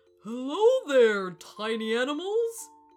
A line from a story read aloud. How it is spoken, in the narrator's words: boomed the elephant